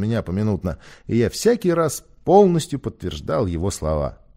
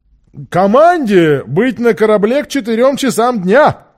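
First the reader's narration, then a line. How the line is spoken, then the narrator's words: Shouted after someone. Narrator (Russian): крикнул Сквайр ему вдогонку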